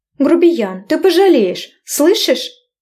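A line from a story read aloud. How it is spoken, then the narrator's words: Angry woman shouting after. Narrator (Russian): Кричала вслед неудовлетворенная курва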